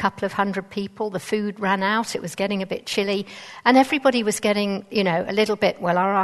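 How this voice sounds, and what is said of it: Usual voice. Nothing is said of it.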